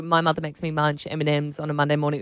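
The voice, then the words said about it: Sultry, sexy newsreader voice. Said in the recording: “Why is yours so much sexier than mine? ... Oh, that's a super sexy newsreader voice.”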